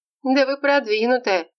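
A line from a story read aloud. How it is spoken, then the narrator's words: Laughing. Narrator (Russian): засмеялась девушка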